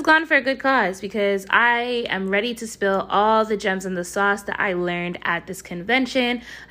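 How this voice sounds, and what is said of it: Hoarse, strained voice. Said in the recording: “sorry for my voice in advance ... my voice is gone”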